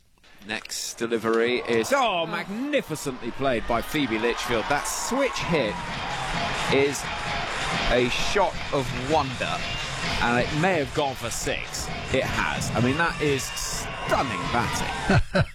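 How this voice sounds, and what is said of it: English accent. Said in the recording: “Very English. ... Oh, gosh, I love the accent.”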